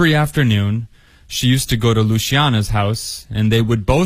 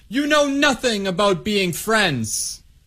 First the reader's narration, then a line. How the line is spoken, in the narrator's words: she yelled